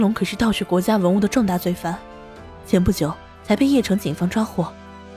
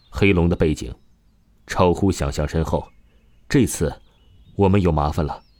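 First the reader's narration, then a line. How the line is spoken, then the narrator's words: Deep, grave voice. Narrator (Chinese): 局长李木山沉声说道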